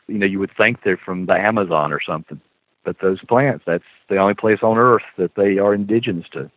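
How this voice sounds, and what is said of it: American Southern accent. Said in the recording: “you can probably tell from my accent, I'm a child of the South. I live in North Carolina.”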